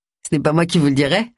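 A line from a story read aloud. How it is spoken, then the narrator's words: Cheerful reply. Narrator (French): répondit gaiement Simon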